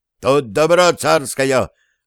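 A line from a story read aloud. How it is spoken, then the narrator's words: Guard shouting. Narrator (Russian): караул крикнул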